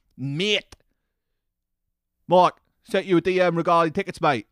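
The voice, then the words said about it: Put-on London accent. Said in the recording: “it fits into the London accent too perfectly”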